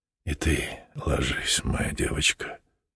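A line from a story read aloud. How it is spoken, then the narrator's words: Whisper. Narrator (Russian): шептал он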